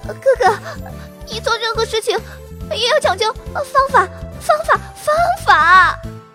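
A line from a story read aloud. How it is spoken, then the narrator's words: Trembling voice. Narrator (Chinese): 茉莉声音发抖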